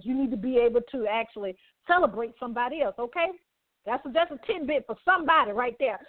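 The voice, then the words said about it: Preacher-like minister delivery. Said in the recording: “in my minister voice”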